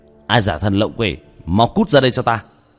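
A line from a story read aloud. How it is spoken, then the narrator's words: Stern shout. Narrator (Vietnamese): Vương Quân Diệt nghiêm nghị quát lên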